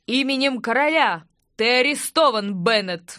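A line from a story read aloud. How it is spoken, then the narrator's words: Captain roaring. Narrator (Russian): взревел капитан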